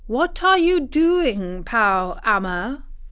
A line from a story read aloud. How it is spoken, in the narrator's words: he called out